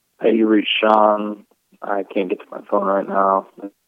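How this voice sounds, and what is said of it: Sad, melancholy tone. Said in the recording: “He sounds so like melancholy... He sounds kind of sad.”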